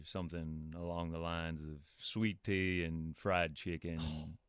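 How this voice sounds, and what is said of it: Put-on Southern US accent. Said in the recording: “a southern accent ... give me a little southern accent ... That's very well done.”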